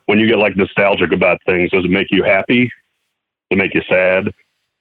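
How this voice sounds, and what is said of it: Very deep radio voice. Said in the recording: “Like the voice. ... Very deep. ... Got the radio voice”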